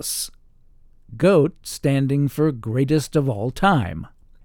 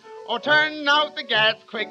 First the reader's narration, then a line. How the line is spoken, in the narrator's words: she shouted out to Pat